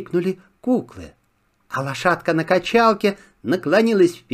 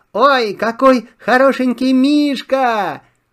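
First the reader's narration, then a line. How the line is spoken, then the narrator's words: Joyful shout. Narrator (Russian): Радостно забилось Мишкино сердечко, выкрикнул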